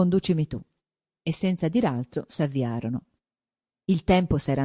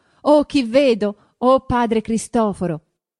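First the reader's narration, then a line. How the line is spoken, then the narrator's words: Joyful shout. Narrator (Italian): gridando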